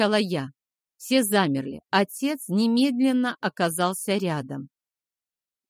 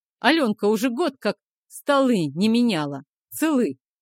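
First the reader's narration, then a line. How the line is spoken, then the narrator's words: Plain. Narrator (Russian): сказал Захар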